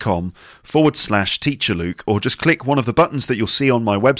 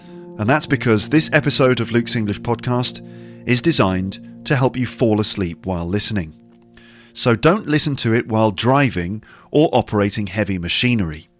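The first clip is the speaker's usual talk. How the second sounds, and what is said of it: Soft, calm, close-miked speech. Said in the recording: “I'm speaking in a slightly different voice today ... I'm quite close to the microphone, and I'm speaking a little more softly and calmly than usual.”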